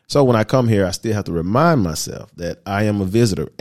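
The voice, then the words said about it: American English accent. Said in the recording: “My nationality, of course, you can hear it in my voice, I'm American.”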